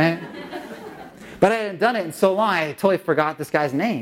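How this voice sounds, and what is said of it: Usual voice. Nothing is said of it.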